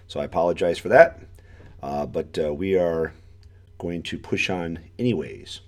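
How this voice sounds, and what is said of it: Voice altered by a cold. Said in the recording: “I got the common cold over the weekend, so my voice is a little bit different today.”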